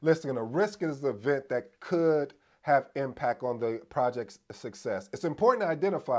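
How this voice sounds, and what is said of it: Usual voice. Nothing is said of it.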